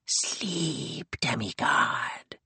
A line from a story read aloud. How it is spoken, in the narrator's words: it said in a slimy, slippery voice